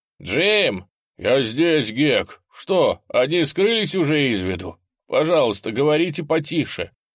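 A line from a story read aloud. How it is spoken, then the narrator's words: Shouting. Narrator (Russian): решился крикнуть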